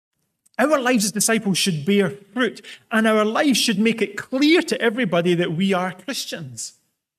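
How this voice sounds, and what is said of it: Scottish accent. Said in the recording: “my accent alone does a pretty good job of marking me out as Scottish. It's a fairly distinguishing feature.”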